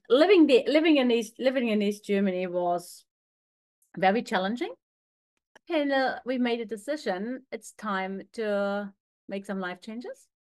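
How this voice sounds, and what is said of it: Slight German accent. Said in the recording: “as you can hear, I've got a little bit of an accent. I was actually made in East Germany”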